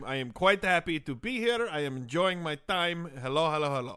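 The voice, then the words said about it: Put-on foreign accent. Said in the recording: “Oh, I love that accent.”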